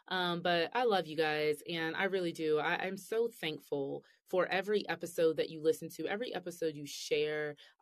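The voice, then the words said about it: Weak, tired-sounding voice. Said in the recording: “my voice is getting a little weak right now”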